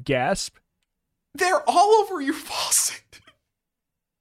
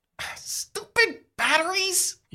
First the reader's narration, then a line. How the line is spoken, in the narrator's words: You sputter